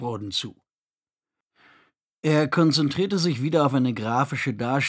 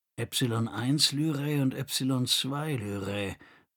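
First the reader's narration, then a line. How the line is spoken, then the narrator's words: Murmured. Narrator (German): murmelte Roden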